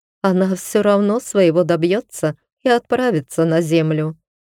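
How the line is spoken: Wife, after laughing. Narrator (Russian): сказала жена, отсмеявшись

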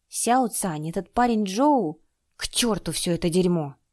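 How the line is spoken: Cursing through gritted teeth. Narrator (Russian): Сквозь зубы выдавил Чэнь-Тянь свои первые ругательства

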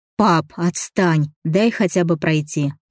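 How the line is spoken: Grumbling. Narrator (Russian): проворчал я

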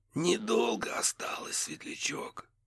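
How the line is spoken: Whisper from above. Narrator (Russian): шепнули над головой

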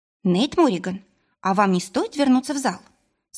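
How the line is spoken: Firm question. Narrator (Russian): спросила твердым голосом

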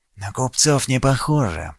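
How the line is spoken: Cautious whisper. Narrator (Russian): прошептал Кирин, хотя его наверняка не могли услышать с такого расстояния

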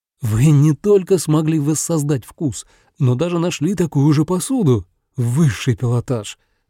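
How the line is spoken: Exclaimed. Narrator (Russian): воскликнул Сакё

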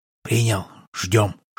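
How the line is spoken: Whisper. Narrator (Russian): шепнул батя

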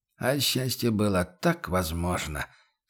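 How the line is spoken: Sighing mutter. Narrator (Russian): со вздохом пробормотал он

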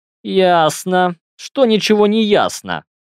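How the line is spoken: Amused snort. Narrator (Russian): хмыкнул

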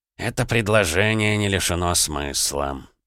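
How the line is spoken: Thoughtful mutter. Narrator (Russian): задумчиво пробормотал Аполлонов

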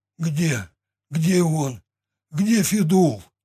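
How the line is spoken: Strained, forced out. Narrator (Russian): Выдавил наконец

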